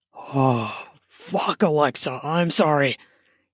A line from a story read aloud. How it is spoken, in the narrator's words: he gasped out